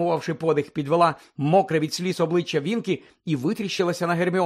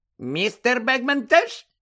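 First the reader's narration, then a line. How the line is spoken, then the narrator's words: Squeaking. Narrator (Ukrainian): запищала Вінкі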